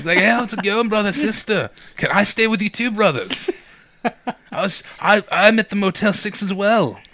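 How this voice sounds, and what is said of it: Imitates another person's voice. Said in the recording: “you do a good Desmond”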